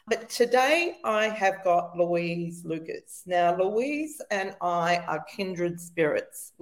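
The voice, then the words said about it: Voice affected by recent illness. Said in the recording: “forgive my voice. I'm still recovering from the lurgy.”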